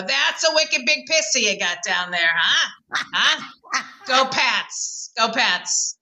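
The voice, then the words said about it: Exaggerated Boston accent. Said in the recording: “your Boston accent comes out in very specific words like Florida ... Did you have to try to unlearn the Boston accent?”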